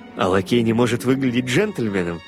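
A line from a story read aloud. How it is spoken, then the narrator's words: Silently laughing. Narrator (Russian): Также беззвучно смеясь, отозвался полковник Паунд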